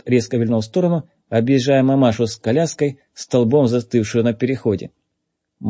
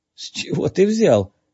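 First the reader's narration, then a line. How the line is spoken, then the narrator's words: Strained, forced out. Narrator (Russian): выдавил Джей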